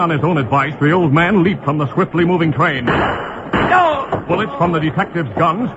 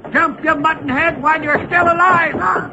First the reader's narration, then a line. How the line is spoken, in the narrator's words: Hardluck shouted